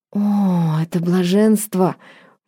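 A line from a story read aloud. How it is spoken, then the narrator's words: Purring. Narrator (Russian): мурлыкнула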